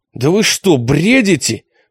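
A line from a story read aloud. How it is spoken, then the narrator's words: Almost growled. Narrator (Russian): Почти прорычала Алиса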